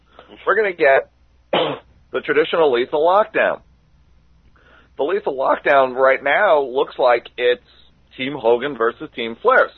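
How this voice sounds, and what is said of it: Strained, fading voice. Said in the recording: “I'm losing my voice as I do the show”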